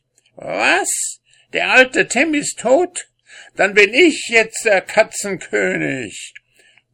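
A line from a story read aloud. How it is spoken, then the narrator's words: Shriek. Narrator (German): Tom kreischte schließlich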